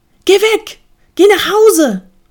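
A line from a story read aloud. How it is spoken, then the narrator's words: Calling again. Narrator (German): rief er wieder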